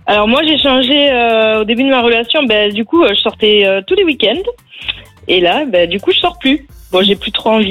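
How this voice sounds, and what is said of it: Southwestern French regional accent. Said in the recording (French): “je mets un billet sur la Haute-Garonne ... t'as l'accent.”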